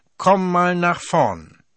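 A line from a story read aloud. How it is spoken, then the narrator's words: Loud, stern call. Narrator (German): rief es in diesem Moment laut und streng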